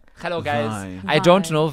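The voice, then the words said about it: Put-on German accent, odd pitch. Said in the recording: “I do the German accent, I have some strange pitch in my voice ... That's really good ... Yeah, that is spot on. That is very good.”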